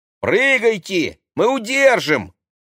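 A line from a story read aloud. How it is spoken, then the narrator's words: Shout. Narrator (Russian): крикнул Максим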